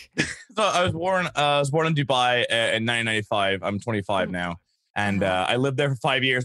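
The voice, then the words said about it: Mixed hard-to-place accent. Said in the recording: “my accent just sounds wrong ... it's a hodgepodge, but you can hear bits and pieces everywhere ... it's like a mutt. It's a little combination of everything.”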